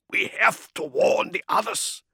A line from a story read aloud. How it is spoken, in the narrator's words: croaked, swallowing dust